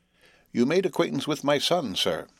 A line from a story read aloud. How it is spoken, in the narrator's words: said the old man, in his chirping way